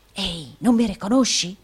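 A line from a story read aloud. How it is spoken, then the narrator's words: Whispering provincial man. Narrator (Italian): bisbigliò il provinciale del Yorkshire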